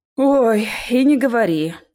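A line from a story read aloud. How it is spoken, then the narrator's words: Tired agreement. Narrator (Russian): устало согласился я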